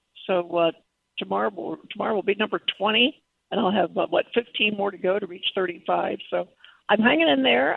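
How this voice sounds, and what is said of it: Froggy, weak voice. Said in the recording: “my voice sounds a little froggy, a little weak ... after so much radiation”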